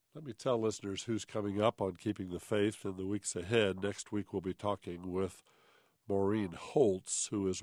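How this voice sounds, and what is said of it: Deep voice roughened by a cold. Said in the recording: “I do have a summer cold, and so my voice has dropped about another half an octave, and it was low enough already... me sounding different”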